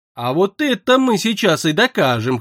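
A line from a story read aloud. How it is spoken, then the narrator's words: Short chuckle. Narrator (Russian): хохотнул инквизитор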